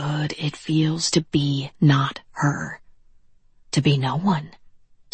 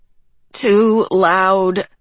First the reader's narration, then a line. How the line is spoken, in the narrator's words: she groaned